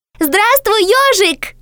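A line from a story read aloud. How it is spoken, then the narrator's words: Shout. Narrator (Russian): крикнула Белочка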